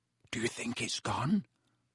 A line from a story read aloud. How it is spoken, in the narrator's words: Harry whispered